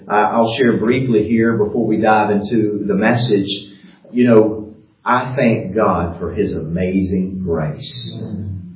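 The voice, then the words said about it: American Southern Georgia accent. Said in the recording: “accent, not only the American accent, but then the Southern accent, from Georgia”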